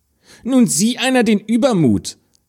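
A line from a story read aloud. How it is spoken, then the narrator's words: Calling out. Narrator (German): rief die Stiefschwester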